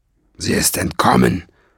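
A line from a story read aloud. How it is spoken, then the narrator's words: Growled. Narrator (German): knurrte Nesselbrand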